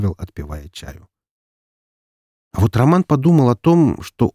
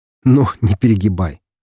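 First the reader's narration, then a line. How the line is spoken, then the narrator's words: Laughing. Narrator (Russian): рассмеялся Роман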